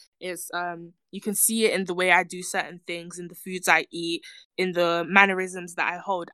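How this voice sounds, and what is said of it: British accent. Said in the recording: “I'm British. You can hear it in my voice.”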